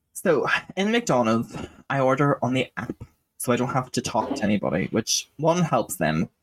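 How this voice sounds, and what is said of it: Hard-to-decipher accent. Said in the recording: “They don't have to decipher my accent.”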